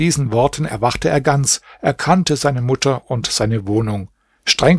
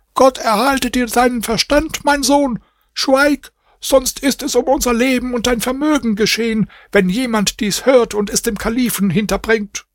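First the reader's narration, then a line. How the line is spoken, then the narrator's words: Mother screaming. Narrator (German): Seine Mutter schrie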